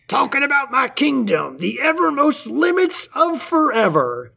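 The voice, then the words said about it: Imitates a cartoon king's voice. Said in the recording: “pretty good Pa impression”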